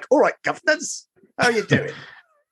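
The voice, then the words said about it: Imitates another person's voice. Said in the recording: “I'll just do Dick Van Dyke.”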